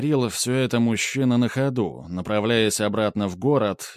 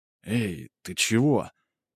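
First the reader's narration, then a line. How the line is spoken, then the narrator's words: Quiet question. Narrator (Russian): тихо спросил он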